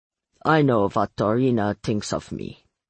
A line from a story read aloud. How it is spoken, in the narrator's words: Mircha said grimly